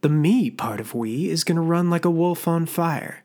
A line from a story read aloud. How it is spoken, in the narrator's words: Faye sneered